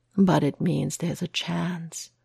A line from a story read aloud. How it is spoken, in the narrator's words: Matt whispers